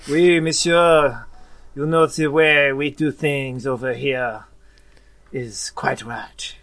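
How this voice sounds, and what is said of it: Put-on French accent. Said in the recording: “That's very French. Very good.”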